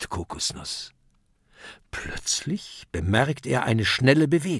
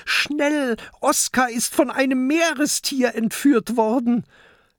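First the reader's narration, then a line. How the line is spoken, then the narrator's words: Calling out. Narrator (German): Mathilda ruft zu Peter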